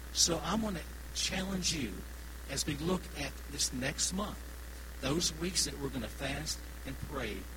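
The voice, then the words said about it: Kentucky Southern accent. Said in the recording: “one little old feller from Kentucky, you know? Y'all have the accent. I don't, okay?”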